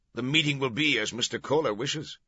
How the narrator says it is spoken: Roche barked

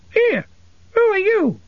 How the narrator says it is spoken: it squeaked

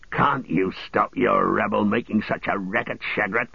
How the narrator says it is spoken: grunted the one

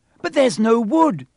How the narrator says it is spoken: Hermione cried

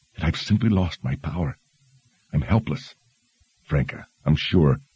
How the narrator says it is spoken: whispered

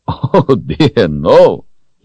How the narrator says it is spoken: he laughed

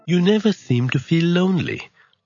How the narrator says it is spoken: Arthur remarked wistfully to Merlin

